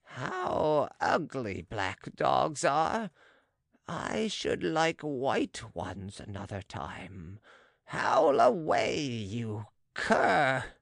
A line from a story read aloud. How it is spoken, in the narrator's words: said the vivisectionist, with his lugubrious laugh